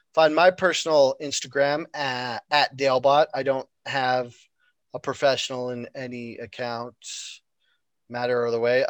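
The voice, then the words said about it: Hoarse, froggy voice. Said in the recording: “I'm getting all froggy right now.”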